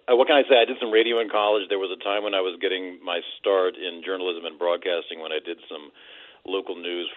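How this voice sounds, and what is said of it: Smooth, polished radio-announcer voice. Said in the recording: “You've got the best radio voice I've ever heard”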